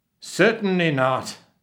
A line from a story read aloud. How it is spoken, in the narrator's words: he roared